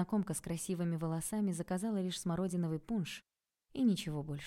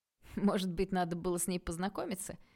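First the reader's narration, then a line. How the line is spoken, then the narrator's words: Cheerful question. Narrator (Russian): весело спросил Стас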